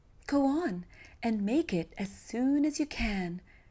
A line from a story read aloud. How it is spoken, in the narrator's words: cried Linda Branca, clapping her little hands in joy